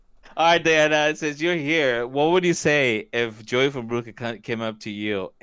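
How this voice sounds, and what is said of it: Usual voice. Nothing is said of it.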